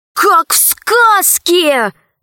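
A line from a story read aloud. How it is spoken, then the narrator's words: Shouted. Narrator (Russian): крикнул Пашка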